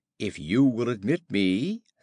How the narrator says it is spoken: said he

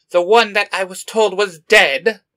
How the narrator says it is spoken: Skeletor growls

